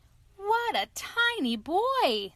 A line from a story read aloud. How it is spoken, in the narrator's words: exclaimed